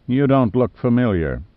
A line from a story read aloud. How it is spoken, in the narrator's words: said Crutcher coldly